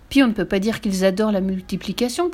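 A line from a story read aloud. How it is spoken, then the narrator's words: Deep, sunken tone. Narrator (French): poursuivit-elle d'un ton enfoncé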